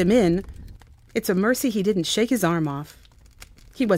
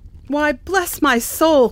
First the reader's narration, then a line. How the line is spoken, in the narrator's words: cried Fred